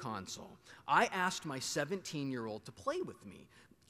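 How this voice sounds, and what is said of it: Usual voice. Nothing is said of it.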